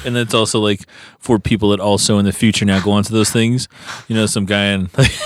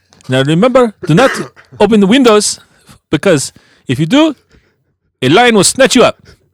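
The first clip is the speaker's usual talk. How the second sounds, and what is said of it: Put-on African accent. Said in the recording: “That was a good accent there ... We love African accents.”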